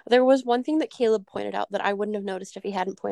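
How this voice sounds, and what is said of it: Usual voice. Nothing is said of it.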